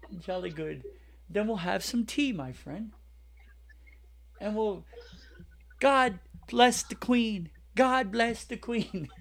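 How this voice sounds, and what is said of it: Put-on British accent. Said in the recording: “If you sound British”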